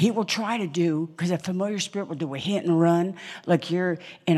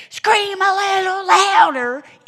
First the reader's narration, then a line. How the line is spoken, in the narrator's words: Elijah yells at him